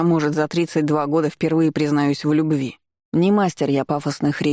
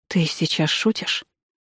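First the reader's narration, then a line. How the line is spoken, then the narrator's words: Near-whispered question. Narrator (Russian): почти шепотом спросила она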